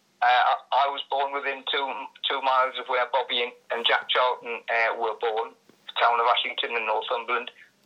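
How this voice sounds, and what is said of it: Northumberland English accent. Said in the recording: “your Northumberland accent”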